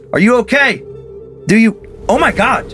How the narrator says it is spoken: I yelled as I approached the bridge

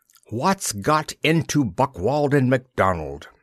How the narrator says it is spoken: he spat

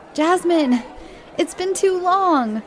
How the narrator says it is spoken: Charlie shouted

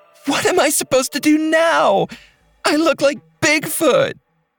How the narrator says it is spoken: She yelled at Mark

